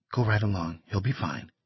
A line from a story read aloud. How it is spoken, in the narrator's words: Young said very quietly